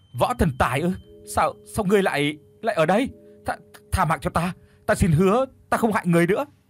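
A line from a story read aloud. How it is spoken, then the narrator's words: Terrified stammering. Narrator (Vietnamese): Kim thiền thử lúc này tái mét mặt mũi, lắp bắp nói không ra lời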